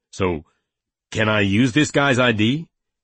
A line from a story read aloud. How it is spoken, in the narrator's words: Penny asked urgently